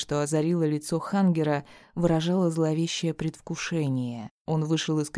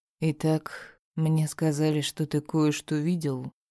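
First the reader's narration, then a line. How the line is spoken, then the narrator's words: Deceptively calm man. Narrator (Russian): Обманчиво спокойным тоном заговорил мужчина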